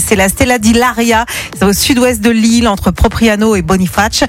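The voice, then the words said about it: Put-on Corsican accent. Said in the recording (French): “T'as vachement bossé l'accent corse”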